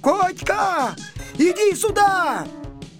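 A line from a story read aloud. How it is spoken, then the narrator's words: Sudden shout. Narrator (Russian): вдруг закричал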